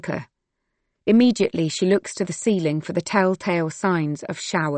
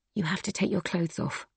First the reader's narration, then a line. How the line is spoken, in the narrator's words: Silke whispers to Josie